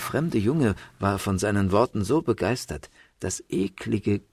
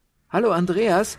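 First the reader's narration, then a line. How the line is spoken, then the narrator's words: Girl calling across street. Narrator (German): rief in diesem Augenblick ein Mädchen von der anderen Straßenseite herüber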